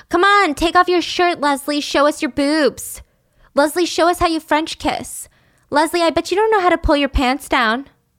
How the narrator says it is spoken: the twins, the leaders of the jocks, the brainless jocks, would yell at Leslie all the time

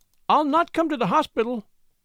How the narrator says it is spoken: she cried warningly

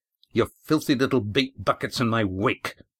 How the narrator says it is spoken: Mufrid spat into Red Ian's face

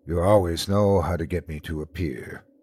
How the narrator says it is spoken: he said in a low tone

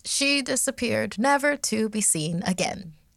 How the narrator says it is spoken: she said in a bright tone, almost too cheery

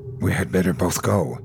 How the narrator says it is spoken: whispered

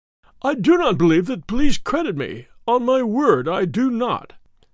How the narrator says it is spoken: said he in a wailing voice

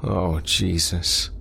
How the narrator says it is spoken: Craig moaned

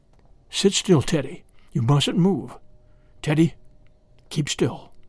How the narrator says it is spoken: all his father could do was whisper

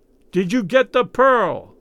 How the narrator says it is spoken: He yelled in Raoul's ear

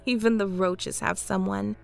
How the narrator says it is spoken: laughed

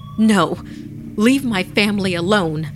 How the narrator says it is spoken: her mother shouted

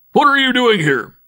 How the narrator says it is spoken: he barked

